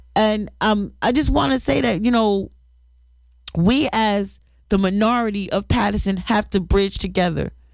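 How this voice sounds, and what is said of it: Slightly raspy voice. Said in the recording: “if I sound a little raspy. ... I'm catching a little cold”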